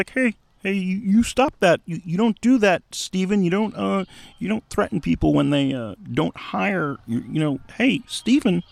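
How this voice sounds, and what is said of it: Kermit the Frog-like impression voice. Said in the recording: “my George Lucas impression is basically Kermit the Frog”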